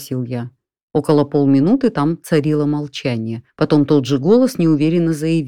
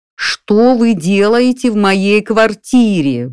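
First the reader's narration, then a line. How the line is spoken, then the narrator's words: Roar. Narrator (Russian): взревел я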